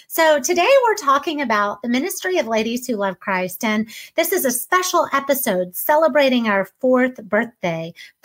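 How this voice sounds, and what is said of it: Excited, enthusiastic voice. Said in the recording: “if you can't hear it in my voice, I'm so excited”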